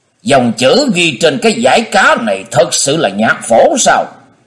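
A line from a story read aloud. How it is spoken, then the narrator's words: Strained hissing question. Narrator (Vietnamese): cố nuốt lại ngụm máu loãng, rít giọng hỏi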